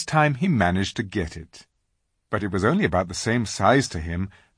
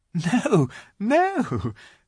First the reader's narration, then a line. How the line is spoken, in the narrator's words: said Lucy, laughing